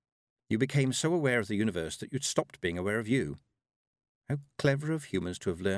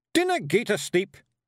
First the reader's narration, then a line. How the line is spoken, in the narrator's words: Rob Anybody shouted